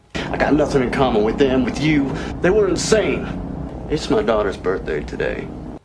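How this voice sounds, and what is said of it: Unconvincing put-on Southern US accent. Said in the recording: “Southern accent ... Nicolas Cage, Con Air ... This doesn't really hit any of the marks”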